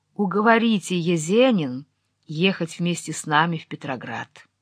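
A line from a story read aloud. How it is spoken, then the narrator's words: Quiet pleading. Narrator (Russian): умоляющим голосом тихо сказала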